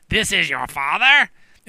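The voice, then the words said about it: Imitates a witch character's voice. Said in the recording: “that was a great impression.”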